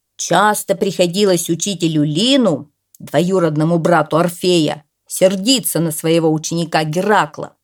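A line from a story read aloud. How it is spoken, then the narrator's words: Loud reading aloud. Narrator (Russian): громко прочитал Коля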